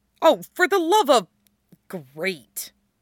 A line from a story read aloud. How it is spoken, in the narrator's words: Stiles grumbles